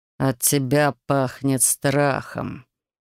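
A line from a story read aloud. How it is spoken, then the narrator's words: Quiet rumbling male voice. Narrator (Russian): тихим, ракочущим голосом произнес мужчина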